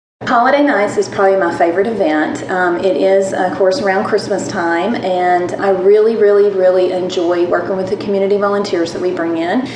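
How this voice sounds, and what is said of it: Southern US twang accent. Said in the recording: “originally comes from Tennessee and you'll hear this southern twang in her accent.”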